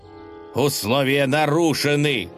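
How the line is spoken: Prince shouting. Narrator (Russian): закричал князь

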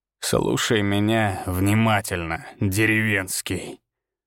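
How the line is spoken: Loud hiss. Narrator (Russian): прошипел он, но достаточно громко, чтобы слышали остальные

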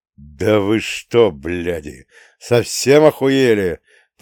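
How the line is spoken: Old man's hiss. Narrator (Russian): прошипел дед Леша

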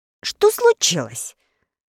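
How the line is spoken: Just-woken shout. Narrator (Russian): закричал проснувшийся Листар

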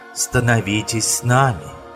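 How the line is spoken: Whisper. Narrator (Russian): прошептала Це

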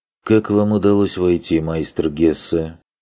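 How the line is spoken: Lazy reply, flabby man. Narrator (Russian): Лениво отозвался сидящий у стола обрюзглый человек

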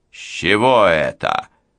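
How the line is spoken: Father roaring. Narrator (Russian): взревел отец

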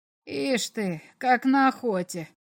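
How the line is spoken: Mutter. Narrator (Russian): пробормотал комиссар

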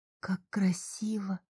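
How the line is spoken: Whisper. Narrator (Russian): прошептала я

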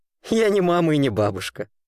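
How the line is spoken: Loud laughing. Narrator (Russian): захохотал незваный гость

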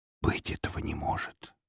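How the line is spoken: Stunned, disbelieving whisper. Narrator (Russian): тихо прошептал я, все еще не способный поверить в то, что вижу

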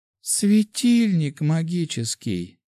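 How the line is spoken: Sigh. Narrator (Russian): вздохнула

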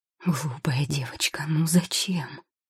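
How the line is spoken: Whisper. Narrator (Russian): шепнул он

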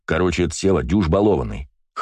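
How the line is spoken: Wry snort. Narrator (Russian): хмыкнул дядя Гоша

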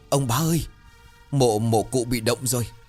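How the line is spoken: Terrified, stammering, panting. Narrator (Vietnamese): mặt tái mét như vừa gặp ma, miệng lắp bắp nói trong hơi thở hổn hển

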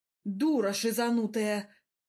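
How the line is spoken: Hoarse wheezing. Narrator (Russian): хрипы чемпиона

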